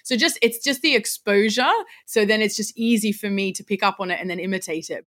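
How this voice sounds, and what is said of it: Australian accent. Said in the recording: “with the Australian accent, well, that's my accent. That's what I've grown up around.”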